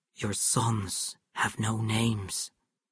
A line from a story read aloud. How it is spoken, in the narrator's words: The fire went out of Samuel's eyes, and he said quietly